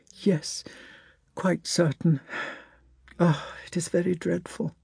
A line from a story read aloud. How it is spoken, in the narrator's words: She sighed and said